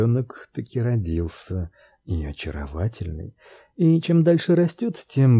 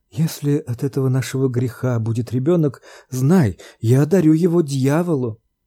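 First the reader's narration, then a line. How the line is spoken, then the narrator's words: Exclamation. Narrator (Russian): она воскликнула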